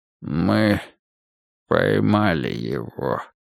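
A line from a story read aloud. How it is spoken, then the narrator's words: Drowsy drugged mumble. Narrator (Russian): промямлил Тейлор, проваливаясь в морфиновое царство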